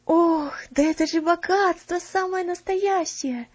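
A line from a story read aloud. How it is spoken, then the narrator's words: Breathless exhale. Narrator (Russian): опять выдохнула Марта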